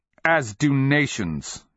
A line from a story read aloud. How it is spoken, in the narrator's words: he spat